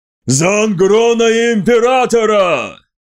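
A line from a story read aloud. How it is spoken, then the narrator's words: Roared. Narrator (Russian): взревел он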